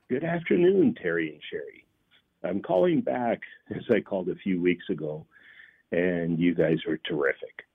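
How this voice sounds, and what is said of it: Canadian accent. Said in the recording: “Oh, the our Canadian guy... Now, you still have an accent, dude. I got to tell you, you still have an accent.”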